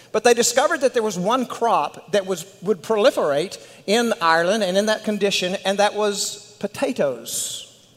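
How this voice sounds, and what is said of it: West Texas accent. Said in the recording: “my West Texas accent”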